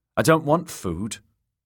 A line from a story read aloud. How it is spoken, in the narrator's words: the little lord said in a reedy, petulant voice